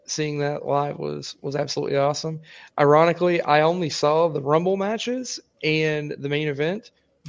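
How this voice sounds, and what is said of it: Hoarse voice. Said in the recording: “Got very, very drunk during that. It was fucking blast. That's why my voice is hoarse.”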